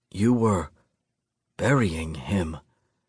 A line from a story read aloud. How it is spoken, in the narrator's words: I whisper